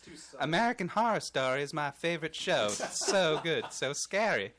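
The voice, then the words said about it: High-pitched girly put-on voice. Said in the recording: “Should I try to do it in a girl's voice? ... now you had a higher pitch ... I'll go higher ... British? ... It sounds like the old woman from”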